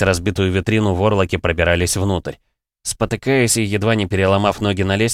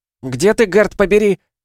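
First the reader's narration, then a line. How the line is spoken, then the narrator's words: Yelling. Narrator (Russian): заорала я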